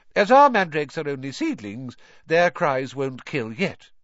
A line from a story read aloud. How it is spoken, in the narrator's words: she said calmly, as though she had just done nothing more exciting than water a begonia